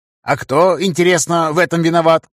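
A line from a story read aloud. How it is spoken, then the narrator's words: Snapping retort. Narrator (Russian): огрызнулся магистр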